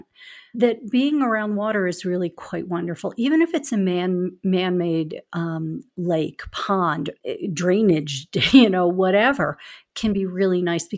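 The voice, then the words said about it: Philadelphia accent. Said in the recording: “as we say from Philadelphia, water. I can always be pegged from my place of origin with my Philly accent.”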